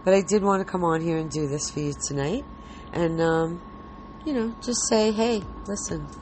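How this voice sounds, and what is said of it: Tired-sounding voice. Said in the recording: “I'm tired, as you can probably tell in my voice.”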